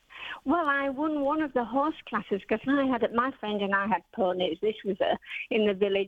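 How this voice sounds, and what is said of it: North Yorkshire English accent. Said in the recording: “brought up in North Yorkshire ... I was hoping for an accent and I got the accent ... I haven't lost it after over 30 years”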